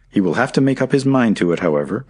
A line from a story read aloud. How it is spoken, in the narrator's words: cried Harry